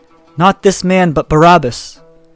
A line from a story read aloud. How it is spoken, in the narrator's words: they all cried out again, saying